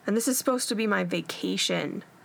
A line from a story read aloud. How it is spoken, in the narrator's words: he said with a groan